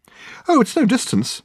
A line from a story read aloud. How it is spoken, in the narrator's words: said Reg cheerfully